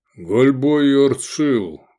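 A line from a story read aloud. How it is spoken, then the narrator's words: Deep bass voice. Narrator (Russian): пробасил кресцент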